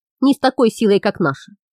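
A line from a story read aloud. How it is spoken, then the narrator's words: Grumbling. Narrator (Russian): проворчал Хам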